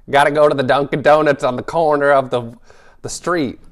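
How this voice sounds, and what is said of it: Poor Boston accent, sounds like Bronx. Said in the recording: “you were trying to be like going like Matt Damon, Ben Affleck, but you went to like sixty year old ... sixty year old Gertrude from the Bronx or something really fast ... Boston is not one that I can do at all”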